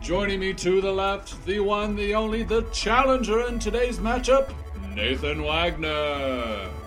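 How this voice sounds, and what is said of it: Fighting game announcer voice. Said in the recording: “I do not have as beautiful as an announcing voice as the Jeffrey Morse over here ... I was trying to do my best fighting game announcer voice”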